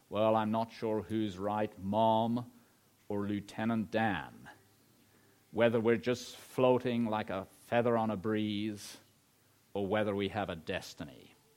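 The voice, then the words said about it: Put-on American accent. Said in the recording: “I'm sorry about the American accent”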